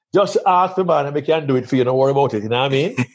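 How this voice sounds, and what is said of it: Heavy Jamaican accent. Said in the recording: “a very heavy Jamaican accent, which I can still turn on in a moment”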